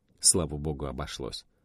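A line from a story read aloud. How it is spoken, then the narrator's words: Muttered. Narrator (Russian): пробормотал замполит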